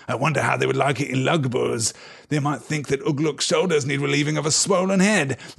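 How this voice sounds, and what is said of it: Sneering evil character voice. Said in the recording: “sneered the evil voice”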